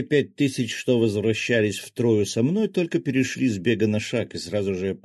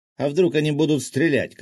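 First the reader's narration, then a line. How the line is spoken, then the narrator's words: Shout. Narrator (Russian): крикнул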